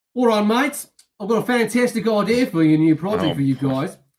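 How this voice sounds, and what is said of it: Put-on Australian accent. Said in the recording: “attempt an Australian accent.”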